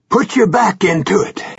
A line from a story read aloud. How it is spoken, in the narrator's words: Gansey shouted breathlessly